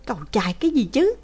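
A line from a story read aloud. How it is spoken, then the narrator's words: Irritated exclamation. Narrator (Vietnamese): Đỗ Vân Bằng bực tức kêu lên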